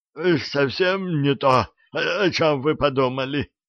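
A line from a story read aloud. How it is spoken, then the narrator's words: Hoarse wheeze. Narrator (Russian): прохрипел некромант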